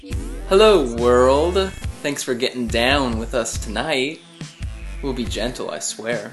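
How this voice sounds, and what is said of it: Smooth jazzy late-night radio voice. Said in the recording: “You sound like you're like Romeo from one of the radio shows. Yeah. Like we're a late night radio show. That was that voice. ... Jazzy ... Late night radio voice.”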